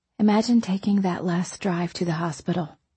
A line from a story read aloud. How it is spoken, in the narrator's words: I said quietly